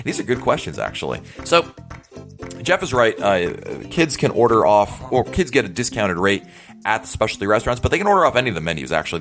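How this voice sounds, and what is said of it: Polished radio-style voice. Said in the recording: “your fantastic radio voice.”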